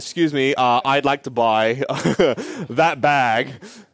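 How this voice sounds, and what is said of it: Put-on full Australian accent. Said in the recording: “in a full Australian accent.”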